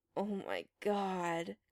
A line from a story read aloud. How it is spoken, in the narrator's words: Chris groaned